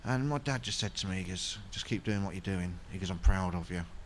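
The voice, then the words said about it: Emotional, voice close to tears. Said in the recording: “I'm getting emotional”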